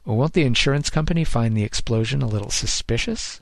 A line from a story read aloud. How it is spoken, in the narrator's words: Grossman chuckled again